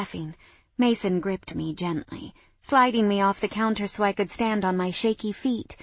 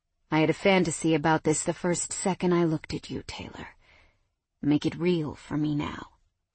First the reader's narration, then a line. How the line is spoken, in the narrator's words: Mason murmured